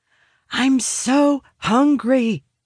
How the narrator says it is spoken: whisper

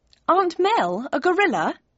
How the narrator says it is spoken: I laughed

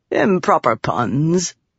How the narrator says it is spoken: the man said lazily

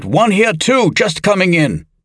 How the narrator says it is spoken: the northeast assistant yelled

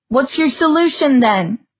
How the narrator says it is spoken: shouted

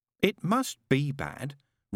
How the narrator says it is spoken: reasoned Aziraphale, in the slightly concerned tones of one who can't see it either and is worrying about it

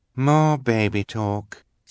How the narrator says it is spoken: said the other white-faced woman with a sigh

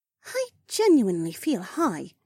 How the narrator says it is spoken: Becca mumbled

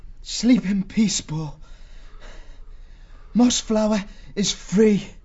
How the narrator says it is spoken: managed to gasp out

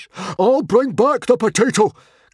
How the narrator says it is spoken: cried Stoic the Vast, a man of action to the last

